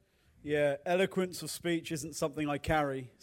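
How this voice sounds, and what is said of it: Regional English accent. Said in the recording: “you can probably tell by my accent, I don't speak the Queen's or the King's English. I speak English English ... my regional accent”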